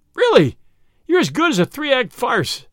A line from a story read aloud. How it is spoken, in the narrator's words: he cried